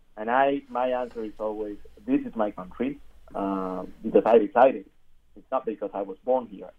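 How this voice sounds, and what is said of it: Strong accent. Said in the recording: “you have a strong accent ... I do have an accent”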